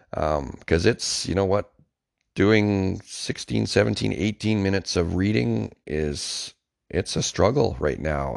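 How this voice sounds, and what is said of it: Sick, strained voice with coughing. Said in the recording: “there's a pretty good chance that I've got pneumonia ... I'm sure you can hear it in my voice ... the coughing”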